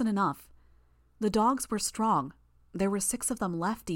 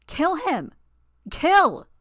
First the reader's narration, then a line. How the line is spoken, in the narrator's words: shrieked